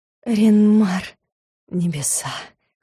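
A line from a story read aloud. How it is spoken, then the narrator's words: Hoarse whisper. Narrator (Russian): хрипло отозвался магистр, и от одного этого хриплого шепота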